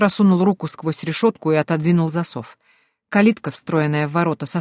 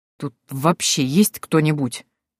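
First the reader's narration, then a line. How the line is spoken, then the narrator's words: Disgusted through gritted teeth. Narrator (Russian): процедил генерал, брезгливо рассматривая бардак, царивший в этом месте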